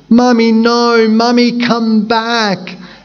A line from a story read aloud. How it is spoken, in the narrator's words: One set of children cried